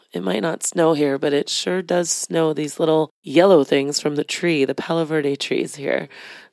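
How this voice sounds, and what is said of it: Slightly raspy voice. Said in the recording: “I'm a little under the weather. I might sound a little bit more raspy than I usually sound. Allergies”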